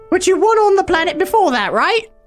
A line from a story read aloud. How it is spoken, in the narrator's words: Olivia asked eagerly